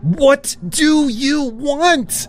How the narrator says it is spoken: I screamed

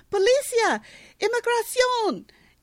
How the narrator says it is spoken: the bartender yells

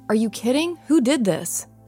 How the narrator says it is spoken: I called out sternly

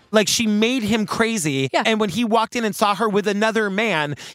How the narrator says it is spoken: he snapped

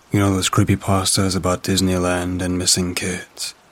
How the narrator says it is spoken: said, with a world-weary sigh

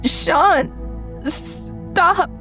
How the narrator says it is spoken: I gasped at him

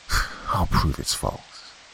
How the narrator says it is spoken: Robert mutter

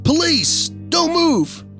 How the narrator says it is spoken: my grandfather yelled

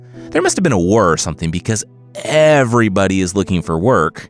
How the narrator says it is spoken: Ian laughed

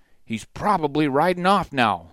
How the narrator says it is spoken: Sutter barked

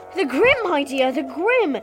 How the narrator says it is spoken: cried Professor Trelawney, who looked shocked

